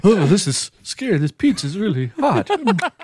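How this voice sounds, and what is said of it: Shaky scared old man voice. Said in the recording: “You sounded like a scared old man. ... the scared old man of Family Guy.”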